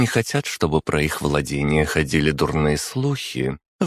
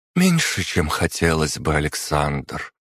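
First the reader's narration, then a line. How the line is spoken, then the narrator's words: Sighed. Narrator (Russian): вздохнула графиня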